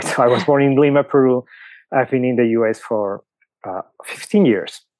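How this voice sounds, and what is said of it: Latin American Spanish accent. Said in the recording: “you can clearly tell I have an accent”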